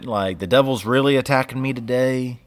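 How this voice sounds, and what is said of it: Put-on Southern US accent. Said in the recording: “for some reason, I have a southern accent when I say that”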